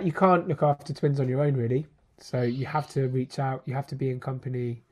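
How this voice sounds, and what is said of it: Stuffy, congested voice. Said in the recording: “I've got a stinking cold ... that's why my voice sounds like I have my face pressed into a sandwich.”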